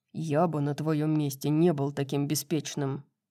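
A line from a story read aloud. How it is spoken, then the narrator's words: Angel's growl. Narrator (Russian): прорычал ангел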